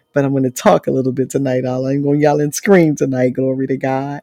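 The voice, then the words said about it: Strained, hoarse voice. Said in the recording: “y'all can tell I'm losing my voice”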